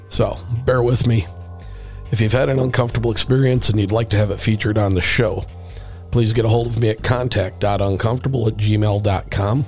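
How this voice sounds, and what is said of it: Sick, strained voice. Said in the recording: “I apologize for my voice. I have been a bit under the weather for the past week and a couple of days... it has hit my voice very hard”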